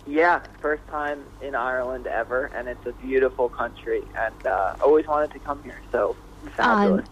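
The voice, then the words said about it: New York accent. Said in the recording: “That's a New York accent, isn't it?”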